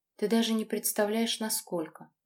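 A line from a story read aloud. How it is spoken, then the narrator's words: Breathless, despairing. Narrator (Russian): выдохнула я, чувствуя, как внутри все обрывается и летит в пропасть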